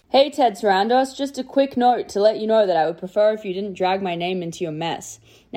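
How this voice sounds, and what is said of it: Australian accent. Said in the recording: “good Australian accent ... our Australian correspondent”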